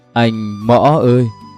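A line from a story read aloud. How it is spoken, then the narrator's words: Moaning, whining. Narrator (Vietnamese): Giọng kia vẫn không ngừng rên rỉ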